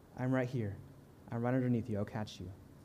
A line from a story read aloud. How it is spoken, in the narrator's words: He calmly talks to us and says